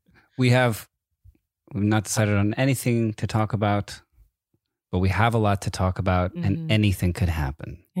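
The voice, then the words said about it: Smooth, quiet radio-host voice. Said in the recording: “what kind of voice am I doing? I feel like I'm doing like smooth radio voice... we're trying to be kind of quiet”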